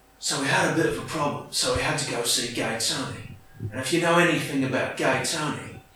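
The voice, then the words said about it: Cockney gangster film narrator voice. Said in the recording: “Those like London Cockney films ... I'm just picturing like a narration by Jason Statham ... I'm going to try and do impersonations here”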